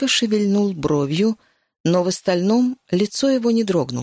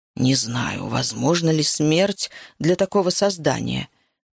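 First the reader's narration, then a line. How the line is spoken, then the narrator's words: Quiet. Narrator (Russian): тихо сказал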